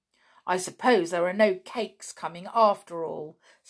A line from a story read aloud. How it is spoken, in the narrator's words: said the clown fiercely